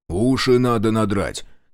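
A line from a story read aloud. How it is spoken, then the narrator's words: Angry. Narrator (Russian): сердито сказал Шестаков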